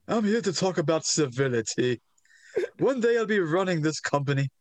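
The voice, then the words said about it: Pronounced British accent, Hunter Hearst Helmsley. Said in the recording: “Hunter Hearst Helmsley, who, in a very pronounced accent, talks about civility ... His British accent is adorable ... he is doing the Justin Henry British accent”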